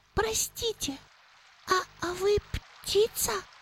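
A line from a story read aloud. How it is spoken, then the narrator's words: Timid question. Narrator (Russian): робко спросил он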